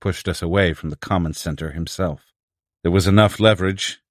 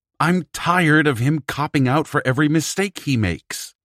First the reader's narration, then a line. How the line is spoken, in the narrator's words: Streeter snarled